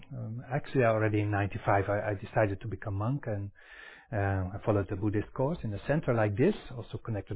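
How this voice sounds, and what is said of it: Dutch accent in English. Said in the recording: “I'm actually from Netherlands, so I want to apologize already for my accent”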